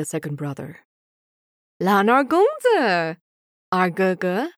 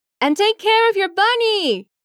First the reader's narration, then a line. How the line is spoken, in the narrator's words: he yells